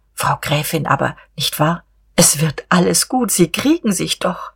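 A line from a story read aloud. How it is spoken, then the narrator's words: Soft, gentle. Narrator (German): Diederich wagte endlich wieder, leise und schonend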